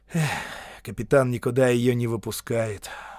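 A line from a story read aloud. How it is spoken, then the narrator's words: Sighing. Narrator (Russian): вздохнул сержант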